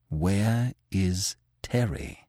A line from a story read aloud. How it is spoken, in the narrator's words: Manfred asked in a low tone